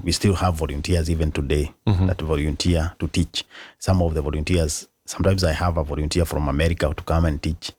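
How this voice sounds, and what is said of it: Accented non-native English. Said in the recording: “we have an accent”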